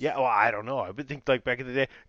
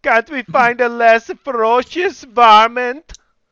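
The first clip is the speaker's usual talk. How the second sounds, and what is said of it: Put-on unidentifiable accent. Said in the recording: “What accent was that exactly? ... I don't know what accent that was.”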